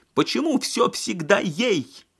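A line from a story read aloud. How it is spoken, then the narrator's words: Shrill squeal. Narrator (Russian): взвизгнула Лена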